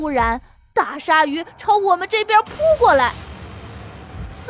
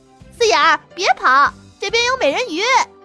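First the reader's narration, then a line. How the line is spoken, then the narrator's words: Calling from behind. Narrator (Chinese): 橡皮擦在后面叫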